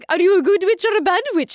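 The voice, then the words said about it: Imitates a film witch character's voice. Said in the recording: “I would sound exactly like Glinda... this terrible Glinda impression... That's a really good one.”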